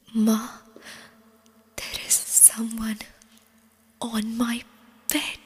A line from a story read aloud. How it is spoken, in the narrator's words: petrified whispering